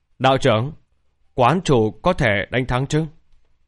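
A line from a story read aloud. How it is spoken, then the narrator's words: Frightened. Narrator (Vietnamese): Khuôn mặt của Lý Vân Hồng đầy sợ hãi, nói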